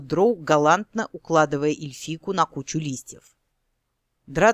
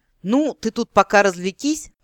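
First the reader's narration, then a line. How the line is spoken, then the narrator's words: Loud laughter. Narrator (Russian): расхохотался Дроу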